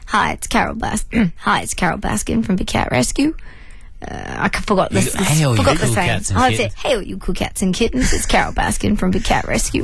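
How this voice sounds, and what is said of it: Carole Baskin impression. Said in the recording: “Give us your impression.”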